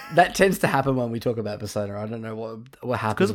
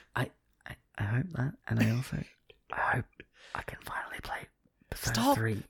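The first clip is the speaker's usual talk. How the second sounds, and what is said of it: Soft whispery ASMR voice. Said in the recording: “I use my ASMR voice so they can't hear me.”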